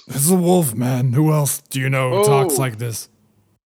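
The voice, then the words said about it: Generic monster voice. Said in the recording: “it's kind of generic monster voice”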